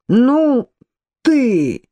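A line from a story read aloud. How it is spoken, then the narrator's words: Creaky shout. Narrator (Russian): снова скрипуче крикнул он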